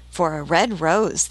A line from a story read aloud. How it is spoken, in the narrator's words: they cried